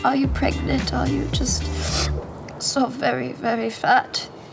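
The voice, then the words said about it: Subtle German accent with Russian touches. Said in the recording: “A big thing for me was the accent... I first did a German accent. You know, German accent is a little more, like, very subtle... You bring in little elements of a Russian accent.”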